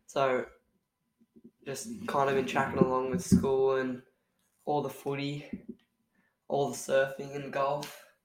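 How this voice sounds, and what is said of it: Sick, slightly rough voice. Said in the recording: “I've had this nasty bug. Probably can tell in my voice still, probably a little bit. Yeah, just coughing, spluttering everywhere.”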